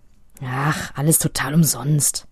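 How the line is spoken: Dejected mumble. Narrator (German): Mit hängendem Kopf Tobi brummelt nur

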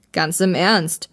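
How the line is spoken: Insistent. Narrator (German): beharrte der Mann

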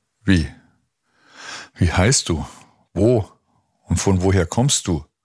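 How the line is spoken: Stammering squad leader. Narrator (German): stammelte der Scharführer

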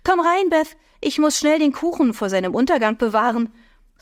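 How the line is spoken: Calling into hallway. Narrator (German): rief sie in den Flur

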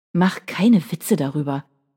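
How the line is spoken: Growling. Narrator (German): knurrte er

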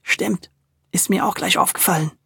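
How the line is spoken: Whisper. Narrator (German): flüsterte Tommy

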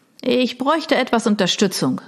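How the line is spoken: Calling out. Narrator (German): rief er

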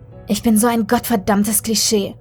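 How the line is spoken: Angry. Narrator (German): sie schüttelte wütend den Kopf

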